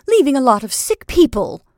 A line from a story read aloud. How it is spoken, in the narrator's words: she cried angrily